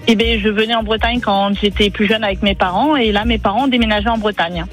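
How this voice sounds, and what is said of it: Toulouse-region French accent. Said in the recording (French): “on entend l'accent”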